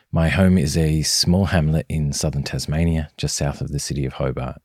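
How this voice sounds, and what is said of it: Australian accent. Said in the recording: “As you might guess from my accent, I'm recording this on Australian soil.”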